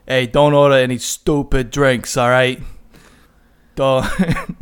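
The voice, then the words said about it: Deliberately bad Boston accent. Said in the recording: “He's got a Boston accent. Uh, this is a really terrible Boston accent”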